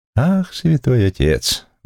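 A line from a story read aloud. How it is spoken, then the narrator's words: Sighing. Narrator (Russian): вздохнул судья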